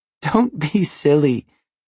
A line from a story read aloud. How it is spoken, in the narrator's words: she laughed